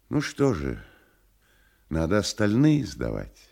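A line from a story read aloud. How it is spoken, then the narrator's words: Soft agreement. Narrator (Russian): согласился тот первый и опять-таки мягко добавил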